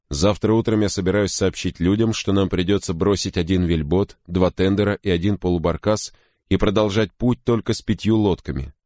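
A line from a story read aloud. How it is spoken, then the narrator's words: Plain. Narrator (Russian): сказал капитан Крози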